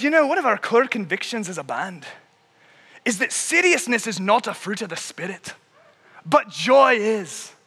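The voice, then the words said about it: Poor put-on Irish accent. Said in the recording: “in this beautiful Irish accent, which I will now attempt to imitate in a manner that would make my Irish ancestors very upset at how poor it is”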